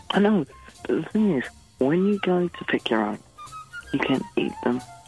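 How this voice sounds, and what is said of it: Whispering. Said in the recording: “Why are you whispering? ... Well, you are.”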